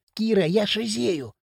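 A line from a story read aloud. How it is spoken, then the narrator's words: Delighted hiss. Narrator (Russian): восторженно прошипел Хрящ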